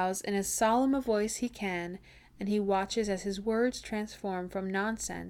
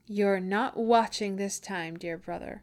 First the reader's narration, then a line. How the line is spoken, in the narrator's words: she says, her voice full of laughter